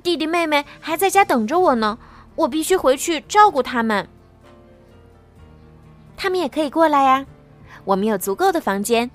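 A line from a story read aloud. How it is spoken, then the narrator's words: Anxious shout. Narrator (Chinese): 吉娜焦急的大叫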